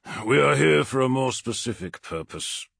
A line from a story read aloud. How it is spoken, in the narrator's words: grunted Abaddon, uncomfortable beneath the gaze of the Crimson Apostle